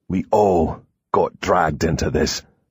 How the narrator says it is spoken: he growled

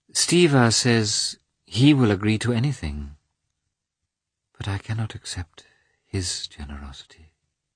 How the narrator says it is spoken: she said, dreamily

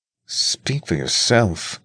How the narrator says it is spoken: Spencer grumbled

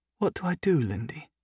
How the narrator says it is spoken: Sophie asked, her voice uncharacteristically small

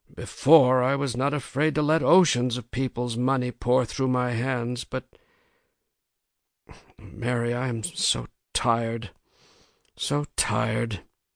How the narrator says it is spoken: Richards muttered

